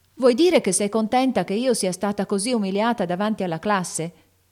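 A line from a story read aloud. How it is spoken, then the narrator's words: Shouted. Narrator (Italian): gridò Amy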